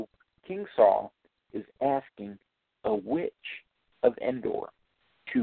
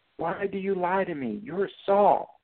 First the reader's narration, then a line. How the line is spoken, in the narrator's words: the woman cried loudly to Saul